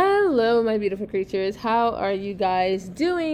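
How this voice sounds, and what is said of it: Usual voice. Nothing is said of it.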